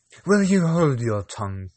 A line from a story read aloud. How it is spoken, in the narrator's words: cried the cat